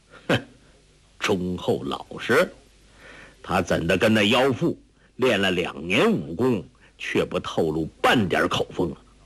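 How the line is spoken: Cold sneer. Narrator (Chinese): 柯震恶冷笑说

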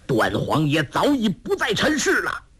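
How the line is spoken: Loud shout. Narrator (Chinese): 那渔人大声喝道

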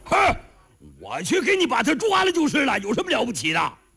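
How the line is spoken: Shouting. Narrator (Chinese): 后边有人喊了一声

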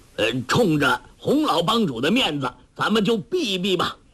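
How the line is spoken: Calling out. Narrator (Chinese): 叫道

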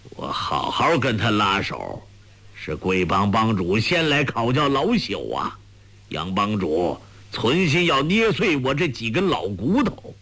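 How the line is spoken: Cold. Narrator (Chinese): 裘千仞冷冷地说

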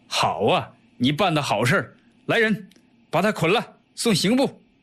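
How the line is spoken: Sneering laugh. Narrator (Chinese): 刘淳冷笑道

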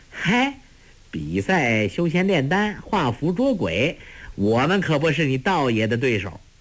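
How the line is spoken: Laughing. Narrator (Chinese): 朱聪笑道

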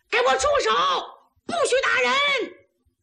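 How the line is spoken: Shout. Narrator (Chinese): 岳云冲里边大喊一声

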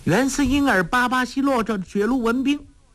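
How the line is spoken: Shouting. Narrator (Chinese): 黄蓉叫道

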